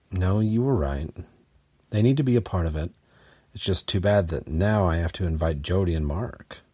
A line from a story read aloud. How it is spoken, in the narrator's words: Chris grumbled